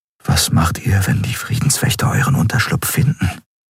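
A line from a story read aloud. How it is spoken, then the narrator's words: Quiet question. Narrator (German): fragte Kai leise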